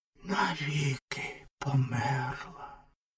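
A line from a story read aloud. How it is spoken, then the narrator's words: Whisper. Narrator (Ukrainian): прошепотів вогняний фонтан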